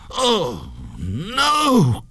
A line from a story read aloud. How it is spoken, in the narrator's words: cried the ghost